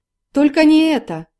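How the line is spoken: Shout. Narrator (Russian): крикнул Сергей

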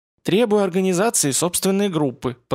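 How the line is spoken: Soft prompting. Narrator (Russian): подсказала Саша мягко

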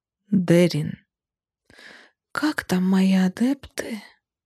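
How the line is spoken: Drawling thoughtfully. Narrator (Russian): протянула задумчиво

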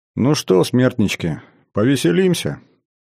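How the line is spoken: Heavy sigh, speaking. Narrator (Russian): тяжело вздохнул и произнес

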